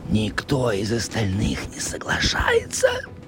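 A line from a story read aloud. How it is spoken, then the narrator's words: Whispered. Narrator (Russian): прошептал Израиль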